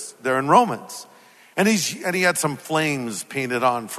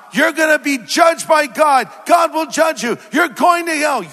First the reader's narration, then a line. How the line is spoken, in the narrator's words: yelling